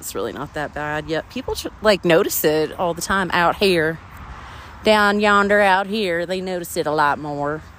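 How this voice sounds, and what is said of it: Exaggerated South Carolina accent. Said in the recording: “I moved from the hot, hot heathen hell of South Carolina. Let me tell you, I'm kicking up the accent.”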